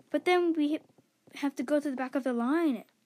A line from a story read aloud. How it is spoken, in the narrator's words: exclaimed Julia